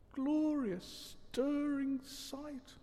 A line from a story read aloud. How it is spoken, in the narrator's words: murmured Toad